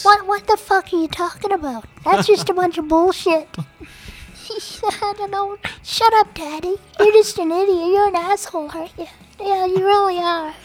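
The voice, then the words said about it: Baby voice. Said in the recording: “his perfect baby voice”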